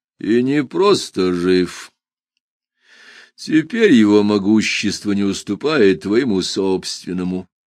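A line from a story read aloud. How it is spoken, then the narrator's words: Calm confirmation. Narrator (Russian): спокойно подтвердил Маба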